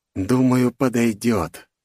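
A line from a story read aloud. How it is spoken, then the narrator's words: Pleased whisper. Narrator (Russian): прошептал, довольно улыбаясь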